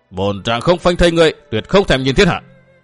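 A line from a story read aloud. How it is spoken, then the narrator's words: Roaring. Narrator (Vietnamese): Y gầm lên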